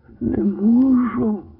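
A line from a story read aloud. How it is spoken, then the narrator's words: Groaned. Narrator (Ukrainian): Простогнав Джонс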